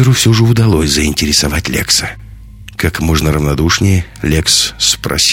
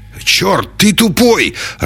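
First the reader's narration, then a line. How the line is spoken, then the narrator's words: Furious bark. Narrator (Russian): разъяренно рявкнул Север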